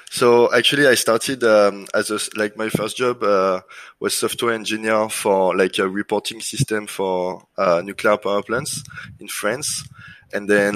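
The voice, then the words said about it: French accent. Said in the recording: “your French accent”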